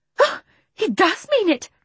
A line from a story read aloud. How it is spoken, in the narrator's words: cried Miss Lark